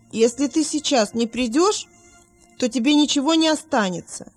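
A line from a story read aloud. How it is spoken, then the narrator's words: Shout. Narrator (Russian): Вилли крикнул матери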